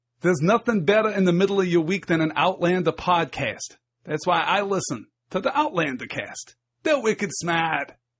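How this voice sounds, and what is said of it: Poor attempt at Boston accent. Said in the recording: “take my best effort at authentic Bostonian ... Oh, that was terrible.”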